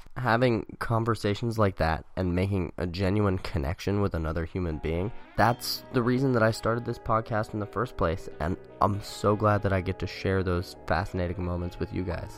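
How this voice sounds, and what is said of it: Ragged voice. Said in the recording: “my voice is still pretty ragged from being sick yesterday”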